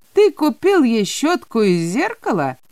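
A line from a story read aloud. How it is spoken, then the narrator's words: Father, coarse laughter. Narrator (Russian): переспросил отец с грубым хохотом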